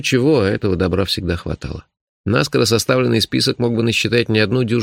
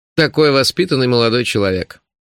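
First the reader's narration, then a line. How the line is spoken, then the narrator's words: Mocking farewell. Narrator (Russian): насмешливо заявил он на прощание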